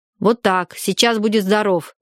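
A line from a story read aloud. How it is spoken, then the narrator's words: Low angry voice. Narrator (Russian): низким, сердитым голосом сказала Варя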